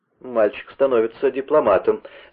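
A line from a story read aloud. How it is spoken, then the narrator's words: Laughing. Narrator (Russian): засмеялся Вендлинг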